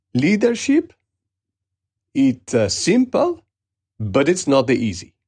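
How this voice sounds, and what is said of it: Put-on Italian accent. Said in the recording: “apologies for any Italian friends who are listening or tuned into the episode for my accent”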